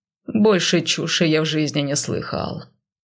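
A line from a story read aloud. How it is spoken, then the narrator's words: Grumbling with a smirk. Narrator (Russian): проворчал он и усмехнулся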